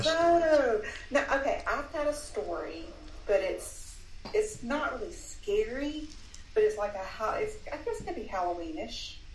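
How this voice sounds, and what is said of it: Southern American accent. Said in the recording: “the nicest Southern accent I've ever heard in my entire life”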